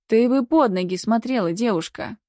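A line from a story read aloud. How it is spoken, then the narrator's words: Sarcastic. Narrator (Russian): язвительно заметила старшая медсестра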